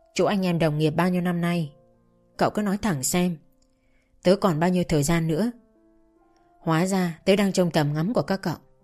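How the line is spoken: Quiet question. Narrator (Vietnamese): Dương khẽ hỏi

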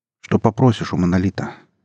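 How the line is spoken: Plain. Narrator (Russian): спросил Иван журналиста

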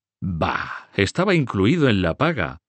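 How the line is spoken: Answered laughing. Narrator (Spanish): respondió el conde de Artois riendo

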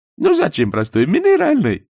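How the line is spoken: Said with silly giggle. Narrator (Russian): сказал Берия и глупо хихикнул

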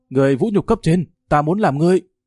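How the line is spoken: Pinned-down loud shout. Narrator (Vietnamese): Địch Tương Hải bị dẫm nát dưới chân hét lớn

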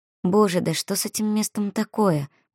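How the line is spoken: Muttered under breath. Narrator (Russian): пробормотала себе под нос

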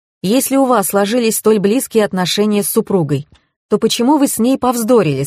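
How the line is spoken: Plain. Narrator (Russian): спросила я

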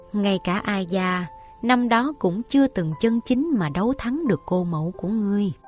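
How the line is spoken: Soft sigh. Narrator (Vietnamese): Thái hậu khẽ than một tiếng

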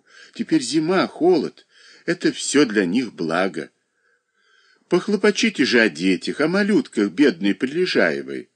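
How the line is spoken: Kind, affectionate. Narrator (Russian): ласково говорила хозяйка

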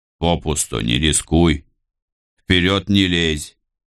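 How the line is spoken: Stern. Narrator (Russian): строго наказал он

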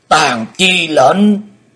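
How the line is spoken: Loud roar. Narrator (Vietnamese): Xích Phát Âm Ma gầm to

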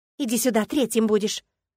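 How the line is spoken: Snapped. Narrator (Russian): огрызнулась я

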